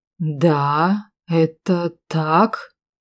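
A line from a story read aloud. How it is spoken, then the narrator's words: Thoughtful drawl. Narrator (Russian): протянул он задумчиво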